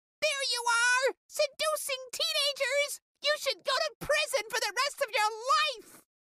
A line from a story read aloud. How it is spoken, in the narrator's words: screamed